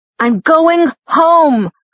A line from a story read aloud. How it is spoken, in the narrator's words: I shouted, my voice breaking